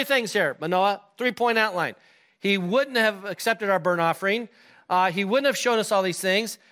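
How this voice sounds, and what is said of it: Usual voice. Nothing is said of it.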